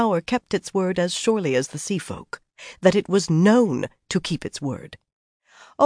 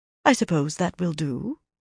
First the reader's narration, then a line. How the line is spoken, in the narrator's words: Elaine replied calmly